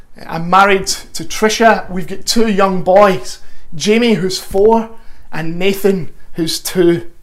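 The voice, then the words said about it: Glasgow Scottish accent. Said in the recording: “my accent is very much not North London. I'm originally from Glasgow.”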